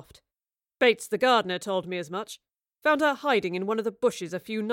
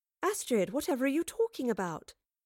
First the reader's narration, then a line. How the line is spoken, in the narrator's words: Jane asked in a friendly but concerned tone